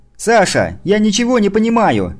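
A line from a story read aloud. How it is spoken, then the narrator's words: Shouting. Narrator (Russian): закричала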